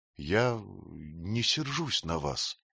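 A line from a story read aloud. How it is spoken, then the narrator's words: Quiet child. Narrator (Russian): сказал мальчик тихо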